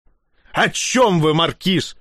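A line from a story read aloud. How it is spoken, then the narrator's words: Barked. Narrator (Russian): рявкнул Бруно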